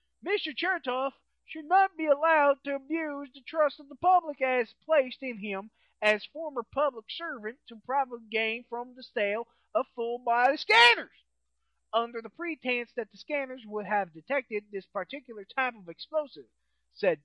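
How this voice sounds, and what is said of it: Put-on Southern accent. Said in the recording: “I don't know why I used that as a use a southern accent”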